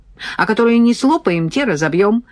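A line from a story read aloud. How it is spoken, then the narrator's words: Joyful. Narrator (Russian): радостно докончил Сережка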